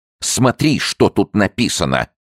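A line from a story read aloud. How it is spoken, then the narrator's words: Shout. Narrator (Russian): крикнул он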